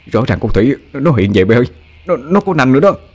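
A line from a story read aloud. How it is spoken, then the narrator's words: Dazed trembling. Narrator (Vietnamese): Nó ngơ ngẩn run run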